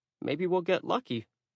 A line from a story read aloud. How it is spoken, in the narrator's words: I said weakly